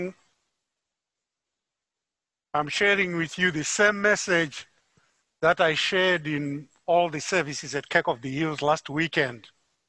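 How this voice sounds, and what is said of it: Zimbabwean English accent. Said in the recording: “As you can tell from my accent, I'm not from Muskogee, Oklahoma. I'm from Harare, Zimbabwe.”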